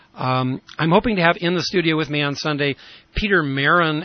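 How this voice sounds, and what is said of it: Slightly raspy voice. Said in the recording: “my voice has gotten back somewhat, although a little raspy”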